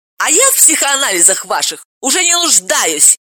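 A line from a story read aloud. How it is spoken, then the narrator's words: Hysterical shouting. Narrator (Russian): Истерически закричала Ирина Сергеевна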